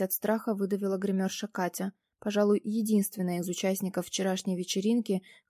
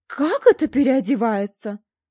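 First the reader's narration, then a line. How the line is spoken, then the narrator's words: Exclaiming. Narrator (Russian): воскликнул он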